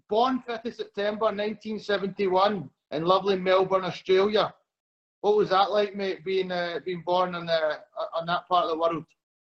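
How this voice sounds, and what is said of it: Glaswegian Scottish accent, slow speech. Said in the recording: “my Glaswegian accent, so I'm going to try and take it really slowly”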